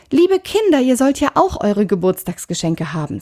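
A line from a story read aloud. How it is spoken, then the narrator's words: Plain. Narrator (German): sagte sie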